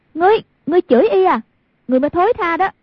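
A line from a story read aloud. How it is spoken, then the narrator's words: Angry shout. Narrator (Vietnamese): Hoàng Dung cả giận, quát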